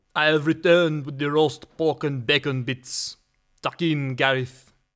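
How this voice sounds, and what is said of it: Put-on accent. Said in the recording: “Can I drop the accent now?”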